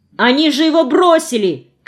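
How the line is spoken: Shouting. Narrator (Russian): крикнул Алеша

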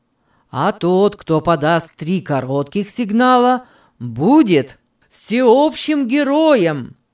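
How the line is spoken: Many voices roaring. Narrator (Russian): проревели с десяток голосов

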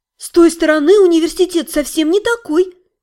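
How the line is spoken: Exclaiming. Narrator (Russian): воскликнула Саня

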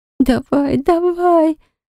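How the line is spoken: Moaning repeatedly. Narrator (Russian): стонала Милана снова и снова

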